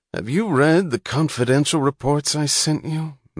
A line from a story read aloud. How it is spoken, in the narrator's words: moaned Mr